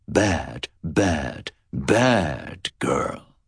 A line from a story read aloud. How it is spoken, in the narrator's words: he said in a low, scornful voice